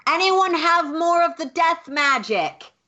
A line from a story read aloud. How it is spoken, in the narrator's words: Lulu will just yell out